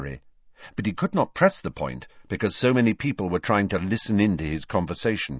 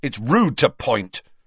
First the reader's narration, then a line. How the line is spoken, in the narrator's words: Ron snapped